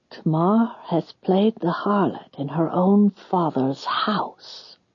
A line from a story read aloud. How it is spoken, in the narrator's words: she whispered to one of the graybeards